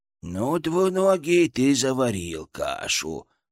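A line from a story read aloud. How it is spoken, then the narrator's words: Creaky, delighted inner voice. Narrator (Russian): проскрипел у меня в голове Фырк, который, кажется, был в полном восторге от происходящего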